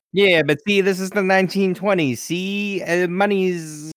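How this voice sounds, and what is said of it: Bad put-on 1920s accent. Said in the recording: “that's my best 1920s accent ... That is just terrible.”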